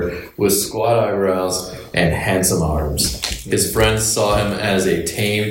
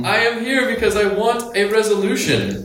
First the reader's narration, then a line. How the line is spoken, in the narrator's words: Annie bellowed in a particular tone